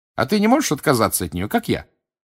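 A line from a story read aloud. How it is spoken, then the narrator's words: Cheerful question. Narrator (Russian): бодро спросила Гермиона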